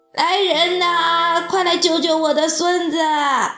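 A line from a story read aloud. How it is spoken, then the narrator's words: Frantic shouting, grandmother. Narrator (Chinese): 奶奶急了，大叫起来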